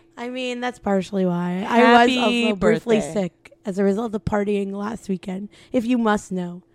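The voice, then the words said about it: Hoarse, nearly lost voice. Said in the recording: “Wow, nice voice. ... I'm ... you can't tell. ... I lost my voice.”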